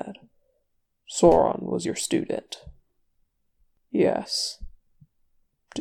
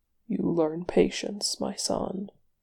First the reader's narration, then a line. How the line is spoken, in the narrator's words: Mahal said softly